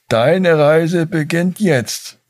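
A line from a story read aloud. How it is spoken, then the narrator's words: Calling out. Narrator (German): rief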